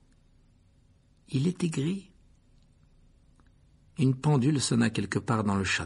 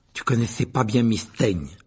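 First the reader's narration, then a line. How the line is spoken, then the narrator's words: Brisk. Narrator (French): lui dit vivement Ron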